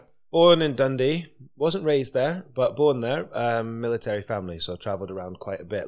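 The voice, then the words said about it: Scottish accent. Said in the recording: “you were representing Scotland ... You can still hear that in your accent”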